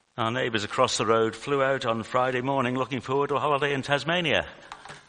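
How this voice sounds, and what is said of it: British accent. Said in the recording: “you may be able to tell from my accent that I'm from the UK”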